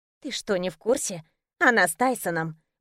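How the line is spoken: Whisper. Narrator (Russian): прошептала приятельница

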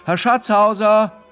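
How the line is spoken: Calling loudly. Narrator (German): rief er laut

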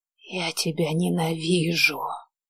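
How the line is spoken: Barely audible whisper. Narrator (Russian): прошептала она едва слышно

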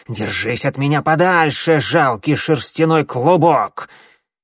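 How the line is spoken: Angry hiss, old cat. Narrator (Russian): Старая кошка сердито зашипела

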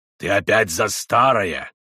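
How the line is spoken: Menacing interruption. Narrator (Russian): грозно прервал колдун

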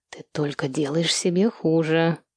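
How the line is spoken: Quiet. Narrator (Russian): тихо сказала она

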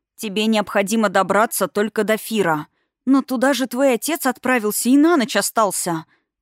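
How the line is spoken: Puzzled breathy voice. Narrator (Russian): выдохнула в недоумении

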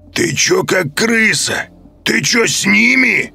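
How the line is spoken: Wolf's growl. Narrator (Russian): зарычал волк

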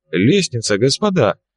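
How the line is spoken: Professor exclaiming. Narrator (Russian): воскликнул профессор

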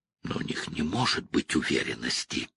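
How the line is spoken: Mutter. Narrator (Russian): пробормотал Пол

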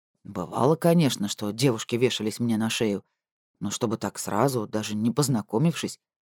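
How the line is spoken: Muttered. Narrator (Russian): пробормотал он

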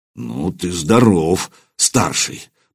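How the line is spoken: Grumble. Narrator (Russian): проворчал Свен

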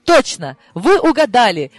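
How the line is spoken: Exclaiming. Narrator (Russian): воскликнула я

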